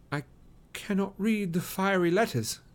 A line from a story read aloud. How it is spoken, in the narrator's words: said Frodo in a quavering voice